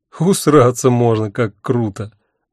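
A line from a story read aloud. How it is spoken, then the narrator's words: Hearty laughter. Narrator (Russian): От души рассмеялся я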